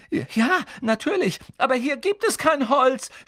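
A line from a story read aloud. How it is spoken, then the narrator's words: Desperate shout. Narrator (German): schrie Hermine händeringend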